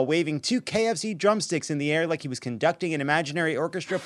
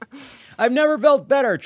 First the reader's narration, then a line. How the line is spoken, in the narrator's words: Trump shouted